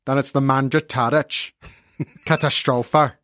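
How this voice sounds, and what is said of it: Weak put-on accent. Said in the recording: “I didn't say I was good at the accent. I just said had to do it.”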